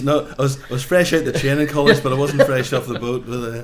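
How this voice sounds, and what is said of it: Northern Irish accent. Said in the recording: “despite the accent ... Northern Ireland”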